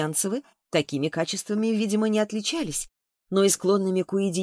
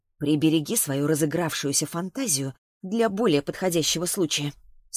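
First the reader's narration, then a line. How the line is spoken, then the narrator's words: Grumbling through clenched teeth. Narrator (Russian): сквозь зубы пробурчала себе Саша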